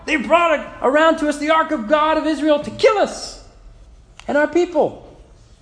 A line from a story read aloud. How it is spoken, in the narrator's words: the people cried out